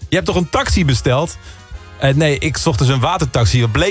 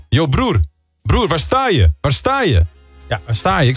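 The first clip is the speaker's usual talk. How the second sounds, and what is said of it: Fairly Moroccan Dutch accent. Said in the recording (Dutch): “toch wel een vrij Marokkaans accent”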